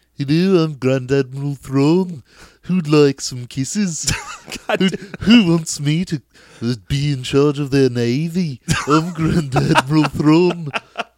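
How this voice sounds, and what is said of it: Put-on Liverpool accent. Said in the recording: “It might actually be funnier in any accent other than Imperial ... Let's keep it British. Let's hear Liverpool.”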